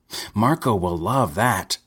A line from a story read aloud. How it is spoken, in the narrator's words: someone shouted